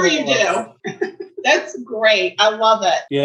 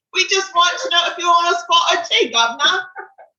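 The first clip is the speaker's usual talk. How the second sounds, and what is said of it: Put-on Cockney English accent. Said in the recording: “Oh, Cockney, you're going to do Cockney. That is better than Dick Van Dyke in Mary Poppins”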